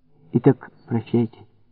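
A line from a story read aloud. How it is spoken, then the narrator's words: Concluding, softer tone. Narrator (Russian): заключила она более мягким тоном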